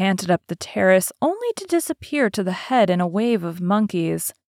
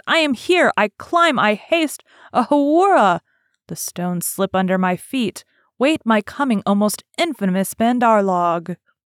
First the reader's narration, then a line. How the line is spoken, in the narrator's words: he shouted